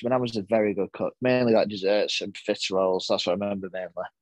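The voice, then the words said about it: Northern English Lancashire accent. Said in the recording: “people can pick up on your accent. You are quite like from Lancashire ... I'm very Lancashire ... It's a horrible Burnley accent ... Northern accent”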